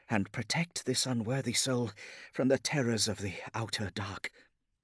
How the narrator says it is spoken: muttered

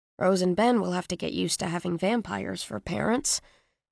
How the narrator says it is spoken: I muttered

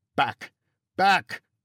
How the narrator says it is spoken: cried a firefighter

